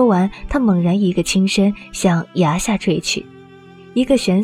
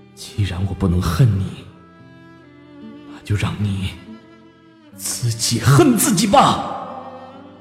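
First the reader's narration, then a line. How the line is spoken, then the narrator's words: Bitter, cruel murmur. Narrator (Chinese): 残酷悲凉的冷笑，喃喃道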